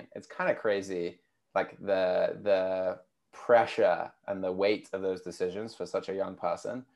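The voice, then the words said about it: British accent. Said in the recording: “you can probably tell from my accent, being from the UK”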